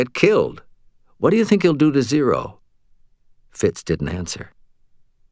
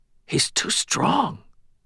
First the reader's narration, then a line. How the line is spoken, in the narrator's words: Fitz swallowed and whispered